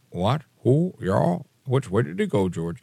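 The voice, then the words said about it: Imitates another person's voice. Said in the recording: “I'm doing an impression of him”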